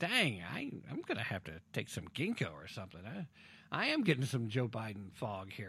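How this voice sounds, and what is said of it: Usual voice. Nothing is said of it.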